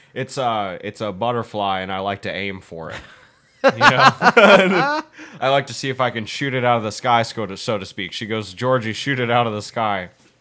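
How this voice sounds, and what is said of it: Imitates another person's voice. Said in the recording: “You're doing an impression of someone, I swear ... it was Woody Allen.”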